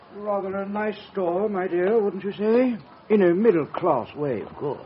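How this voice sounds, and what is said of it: Refined upper-class accent. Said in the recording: “Listen to that accent. ... So refined.”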